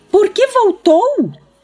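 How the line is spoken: Hysterical piercing insistence. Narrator (Portuguese): insistiu Halliday com a mesma voz histérica e penetrante

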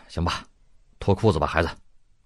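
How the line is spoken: Resolute father. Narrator (Chinese): 老爸……一咬牙……说

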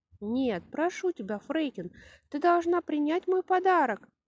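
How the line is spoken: Exclaiming. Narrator (Russian): воскликнула Пеппи

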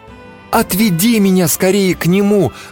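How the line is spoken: Pleading girl. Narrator (Russian): взмолилась девушка

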